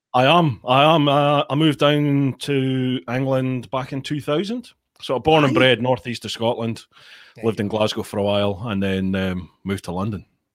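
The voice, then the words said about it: Scottish accent. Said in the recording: “hearing the accent and are thinking, two hairy Scottish boys just having a chat”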